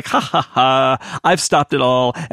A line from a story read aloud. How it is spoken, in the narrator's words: laughing